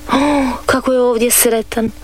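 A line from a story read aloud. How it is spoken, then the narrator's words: Sighing. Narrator (Croatian): uzdiše Dorica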